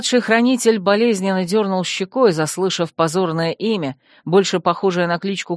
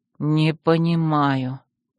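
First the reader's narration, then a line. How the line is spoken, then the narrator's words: Tired whisper. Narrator (Russian): прошептал он, устало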